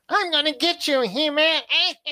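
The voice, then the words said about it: Skeletor cartoon villain voice impression. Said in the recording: “your Skeletor impression ... That was pretty good. ... pretty good, man.”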